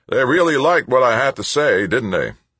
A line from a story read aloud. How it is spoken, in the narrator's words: the president called out